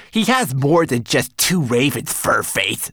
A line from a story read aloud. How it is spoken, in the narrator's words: snapped Twigleg